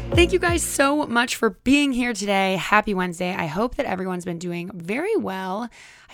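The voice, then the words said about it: Hoarse, worn-out voice. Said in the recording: “my voice is also always gone when I record”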